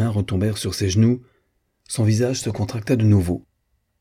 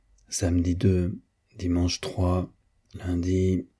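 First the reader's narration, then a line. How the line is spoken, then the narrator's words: Murmured to herself. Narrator (French): murmura-t-elle, se parlant à elle-même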